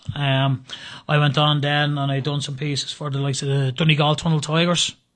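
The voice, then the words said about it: Dublin Irish accent. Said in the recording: “the accent is Dublin”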